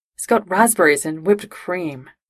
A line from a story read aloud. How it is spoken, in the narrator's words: Jim sighed